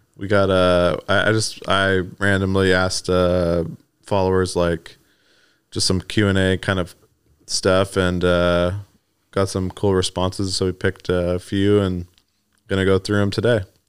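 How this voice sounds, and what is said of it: Slightly raspy voice. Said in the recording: “A little raspy there, dude.”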